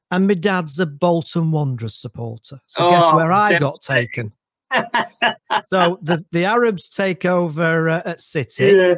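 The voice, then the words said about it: Manchester English accent. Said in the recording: “as you might better tell from the accent, as I mentioned earlier, I'm actually from Manchester”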